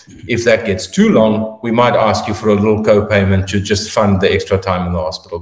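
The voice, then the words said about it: Heavy accent, fast speech. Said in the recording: “my accent is getting heavier as the night goes on. But I seem to speak faster.”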